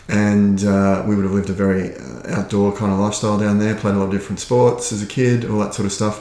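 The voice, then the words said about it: Australian accent. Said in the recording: “my accent's not Irish, so I'm from Australia originally.”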